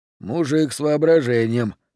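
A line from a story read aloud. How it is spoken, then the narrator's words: Approving grumble. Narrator (Russian): одобрительно буркнул Д'Агоста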